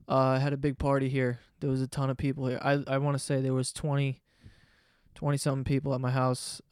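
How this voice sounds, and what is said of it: Slightly hoarse voice. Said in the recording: “Little hungover. My voice is a little hoarse.”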